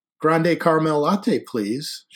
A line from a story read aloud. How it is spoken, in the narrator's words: said